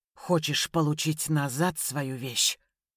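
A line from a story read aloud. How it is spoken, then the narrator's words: Ominous. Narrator (Russian): Крюков зловещим тоном изрек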